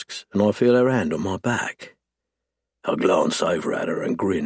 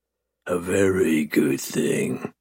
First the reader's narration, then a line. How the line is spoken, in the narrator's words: I purr